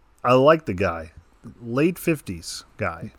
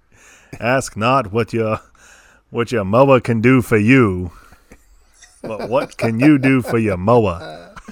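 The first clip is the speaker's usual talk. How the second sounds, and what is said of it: Imitates another person's voice. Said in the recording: “your Kennedy impression”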